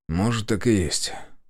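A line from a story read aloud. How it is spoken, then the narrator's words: Sighed. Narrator (Russian): вздохнул я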